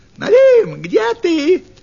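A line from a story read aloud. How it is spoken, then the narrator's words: Fox shouting. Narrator (Russian): крикнула лисица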